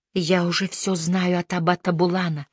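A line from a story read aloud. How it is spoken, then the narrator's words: Whispering. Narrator (Russian): зашептала Диана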